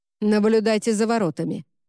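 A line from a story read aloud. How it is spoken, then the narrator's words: Sharp command. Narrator (Russian): резким тоном велел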